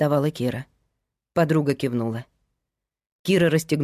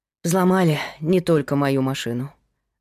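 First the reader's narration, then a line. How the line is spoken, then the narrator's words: Sighing. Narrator (Russian): вздохнула Лена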